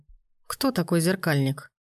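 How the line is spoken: Gloomy question. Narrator (Russian): мрачно спросили

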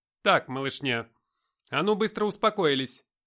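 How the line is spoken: Commanding voice. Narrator (Russian): властным голосом сказала Наташа

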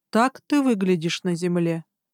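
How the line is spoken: Flat colorless voice. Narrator (Russian): произнес Гарн бесцветным голосом

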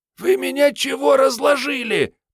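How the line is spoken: Hoarse wheeze. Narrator (Russian): прохрипела глупая Мариетта

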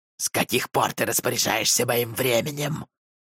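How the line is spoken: Snapping retort. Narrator (Russian): огрызнулся тот

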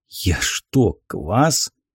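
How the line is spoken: Hoarse, disbelieving question. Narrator (Russian): Все еще не веря своим глазам, севшим голосом спросил

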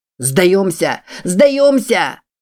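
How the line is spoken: Shouting. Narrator (Russian): кричал

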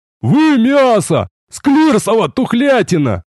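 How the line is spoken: Sudden shout. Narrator (Russian): Ни с того ни с сего заорал Рикар

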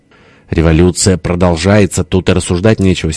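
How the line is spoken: Angry. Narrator (Russian): сердито сказал тесть

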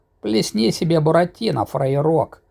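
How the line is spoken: Creaky command. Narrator (Russian): проскрипел, приказал со своего ложа Кузя

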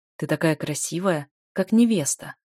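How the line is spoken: Tender whisper. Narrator (Russian): шепчет он

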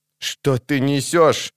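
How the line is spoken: Trembling voice. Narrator (Russian): вздрагивающим голосом спросил Фаис

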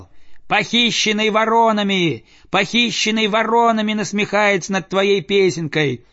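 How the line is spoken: Endless trilling. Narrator (Russian): Без конца заливался дрозд

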